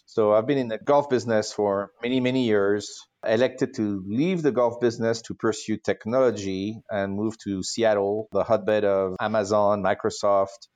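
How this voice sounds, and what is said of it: French accent. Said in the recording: “your accent, that you are French”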